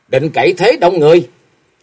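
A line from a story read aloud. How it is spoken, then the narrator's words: Shrill shout. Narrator (Vietnamese): Bích Liên Hoa hét lên lanh lảnh nói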